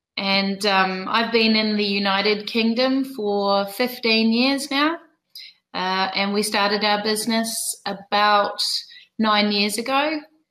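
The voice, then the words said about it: New Zealand accent. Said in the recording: “You might detect that I don't have a British accent. I'm actually originally from New Zealand ... you do have that kind of accent. Kiwis.”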